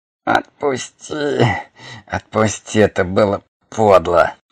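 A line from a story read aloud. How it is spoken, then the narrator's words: Weak, pitiful whimper. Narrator (Russian): Бессильный, даже жалко, заскулил Хорг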